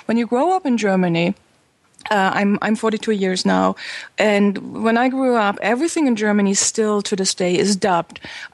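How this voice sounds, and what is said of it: German speaker with American-sounding accent. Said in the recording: “I have so much of, a, of an American accent ... you don't have that bad German accent”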